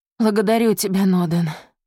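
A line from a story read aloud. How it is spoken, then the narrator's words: Breathed out. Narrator (Russian): выдохнул он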